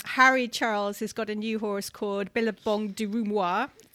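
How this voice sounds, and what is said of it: Poor put-on French accent. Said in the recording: “Terrible French accent”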